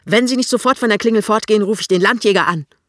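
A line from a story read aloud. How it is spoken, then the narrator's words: Woman shouting. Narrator (German): die Frau schreit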